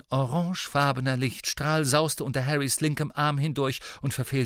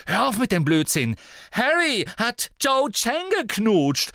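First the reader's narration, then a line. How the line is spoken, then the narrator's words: Calling out, near tears. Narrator (German): rief Ginny, und jetzt klang es, als sei sie den Tränen nahe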